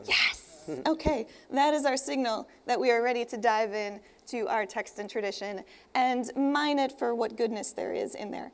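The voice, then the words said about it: Slightly hoarse, laryngitic voice. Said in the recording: “I'm dealing with a touch of laryngitis here ... at some point this is going to turn into the demonology hour with Mickey Mouse”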